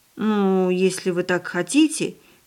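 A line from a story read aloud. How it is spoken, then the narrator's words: Uncertain. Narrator (Russian): неуверенно произнесла хозяйка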